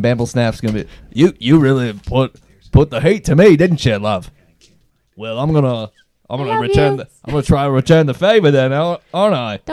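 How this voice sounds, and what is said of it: Put-on accent, sounds Australian. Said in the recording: “You sound Australian.”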